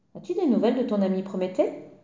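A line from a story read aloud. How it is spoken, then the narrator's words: Curt reply. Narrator (French): lui répondit sèchement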